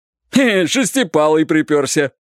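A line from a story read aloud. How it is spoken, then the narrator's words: Cheerful shout from ahead. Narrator (Russian): весело закричал кто-то впереди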